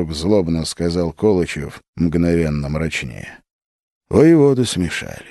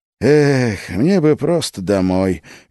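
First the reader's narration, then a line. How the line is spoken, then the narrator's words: Dreamy sigh. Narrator (Russian): мечтательно вздохнул Салтыков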